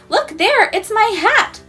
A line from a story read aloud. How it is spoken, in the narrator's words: shrieked